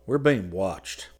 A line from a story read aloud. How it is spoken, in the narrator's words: Scotty said quietly